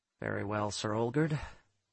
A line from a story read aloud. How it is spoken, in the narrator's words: I muttered